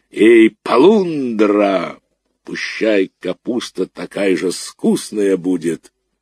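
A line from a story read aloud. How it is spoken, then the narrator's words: Cracked bass shout. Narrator (Russian): он со двора крикнул треснутым басом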